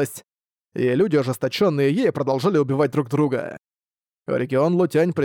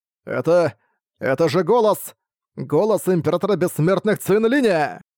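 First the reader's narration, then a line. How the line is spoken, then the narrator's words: Group shouting. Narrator (Russian): Закричали они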